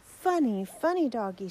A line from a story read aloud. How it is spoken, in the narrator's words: she cried